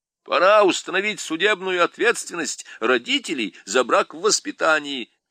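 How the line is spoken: Young man shouting. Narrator (Russian): крикнул густоволосый молодой человек

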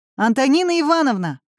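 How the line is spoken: Shout. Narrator (Russian): крикнул Семён

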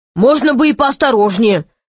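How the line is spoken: Grumbling. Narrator (Russian): проворчал он

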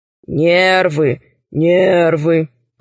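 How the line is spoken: Grumbling tiger. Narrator (Russian): проворчал тигр

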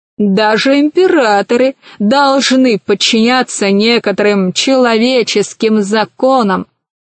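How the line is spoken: Plain. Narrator (Russian): сказал Милодар

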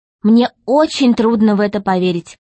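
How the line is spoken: Plain. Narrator (Russian): ответила Алиса

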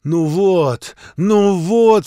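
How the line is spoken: Sobbing. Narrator (Russian): всхлипывая

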